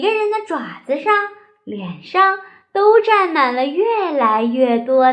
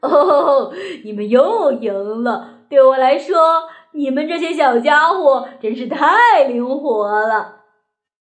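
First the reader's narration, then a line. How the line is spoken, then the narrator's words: Loud laughing. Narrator (Chinese): 他呀，大声的笑着说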